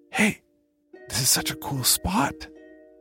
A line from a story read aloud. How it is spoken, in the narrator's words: I whispered, aware of the distant voices of my cousins counting